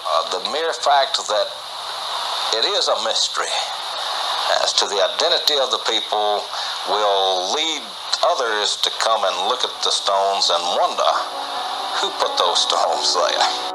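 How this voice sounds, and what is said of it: Man with a strong accent. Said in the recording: “He's got quite the accent, as you probably could hear from the clip there.”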